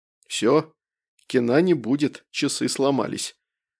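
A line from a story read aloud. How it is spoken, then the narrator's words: Sad. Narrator (Russian): грустно перефразировал я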